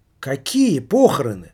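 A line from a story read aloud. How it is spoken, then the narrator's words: Exclaimed. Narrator (Russian): воскликнула Ирина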